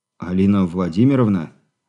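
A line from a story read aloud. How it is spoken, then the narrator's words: Bewildered. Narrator (Russian): растерянно произнес Азаров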